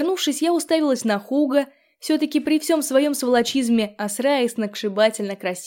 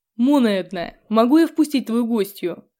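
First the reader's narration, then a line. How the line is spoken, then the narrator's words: Rude interruption. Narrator (Russian): Грубо прервал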